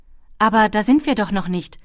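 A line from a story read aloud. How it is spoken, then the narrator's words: Called out. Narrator (German): rief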